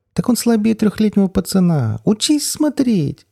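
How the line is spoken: Ear-splitting shriek. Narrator (Russian): Голос взвизгнул так, что у меня заложило уши

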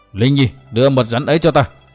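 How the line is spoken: Roared. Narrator (Vietnamese): Đinh Cao gầm lên

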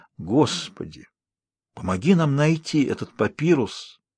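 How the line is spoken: Whispered. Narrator (Russian): прошептал он

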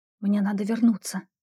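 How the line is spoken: Whisper. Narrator (Russian): прошептала я Агнессе

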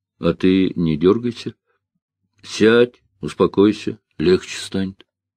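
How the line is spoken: Calm, steady voice. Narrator (Russian): киллер, который очень даже спокойно сказал

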